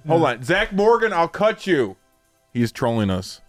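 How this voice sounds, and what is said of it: Yelling. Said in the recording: “That's why I yelled. ... That's why I'm yelling.”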